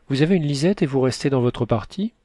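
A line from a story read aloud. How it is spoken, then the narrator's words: Exclaiming. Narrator (French): s'écria le vertueux Gazonal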